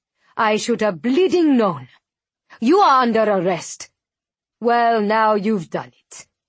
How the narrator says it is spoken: she snarls

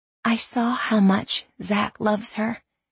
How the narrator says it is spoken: Lexi said softly

